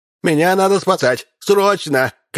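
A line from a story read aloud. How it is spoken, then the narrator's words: Shouting from doorway. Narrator (Russian): крикнул мэр с порога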